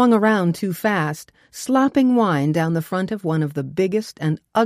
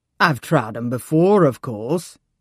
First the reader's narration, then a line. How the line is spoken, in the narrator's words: said in a deep voice that expressed his exasperation at such an inane question